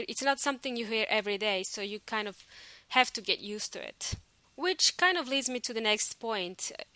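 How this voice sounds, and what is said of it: Soft, smooth foreign accent. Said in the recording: “I've also got an accent myself... Now it's softer, or suave in Espanol... it's a little bit softer and smoother, and a lot of people think that I sound like I'm from South Africa”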